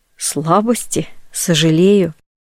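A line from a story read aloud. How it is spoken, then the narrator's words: Soft laugh. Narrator (Russian): Дама тихонько рассмеялась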